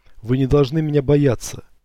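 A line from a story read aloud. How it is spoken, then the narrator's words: Dying dragon shouting. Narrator (Russian): Второе поколение драконов перед смертью кричал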